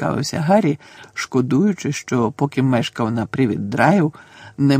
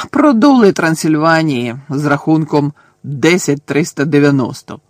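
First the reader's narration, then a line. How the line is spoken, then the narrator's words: Gloomy grumble. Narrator (Ukrainian): понуро буркнув Чарлі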